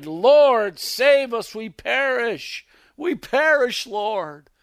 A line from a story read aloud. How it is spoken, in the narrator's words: they cried